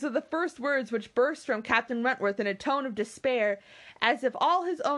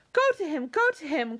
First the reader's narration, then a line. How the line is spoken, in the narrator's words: cried Anne